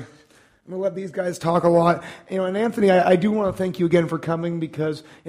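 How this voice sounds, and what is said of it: Strained voice, losing his voice. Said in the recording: “I am losing my voice. I've been speaking constantly for the last 4 days. So if I crack, if I sound horrible”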